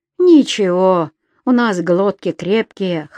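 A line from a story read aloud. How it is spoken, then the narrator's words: Laughing. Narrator (Russian): хохотнул Саня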